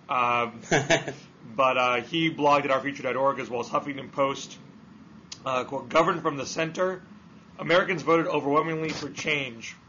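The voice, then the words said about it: Hoarse voice. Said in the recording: “hoarseness of the voice”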